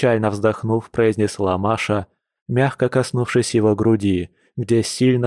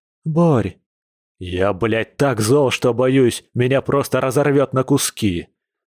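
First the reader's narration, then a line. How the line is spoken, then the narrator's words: Bear's hiss. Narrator (Russian): прошипел медведь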